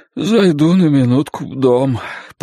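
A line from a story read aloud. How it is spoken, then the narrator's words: Hoarse wheeze. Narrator (Russian): просипел Глен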